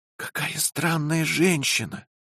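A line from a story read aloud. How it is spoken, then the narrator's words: Whispered. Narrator (Russian): прошептала миссис Фрэнклинд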